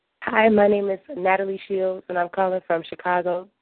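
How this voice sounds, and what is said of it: Voice rough from a cold. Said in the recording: “Excuse my voice. I'm getting over a cold.”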